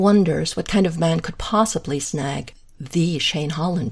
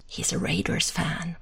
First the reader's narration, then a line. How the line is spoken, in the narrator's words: whispers